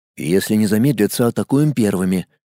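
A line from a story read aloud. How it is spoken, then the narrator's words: Quiet. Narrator (Russian): тихо проговорил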